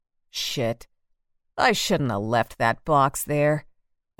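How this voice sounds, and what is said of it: Deep male character voice. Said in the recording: “a deep voice”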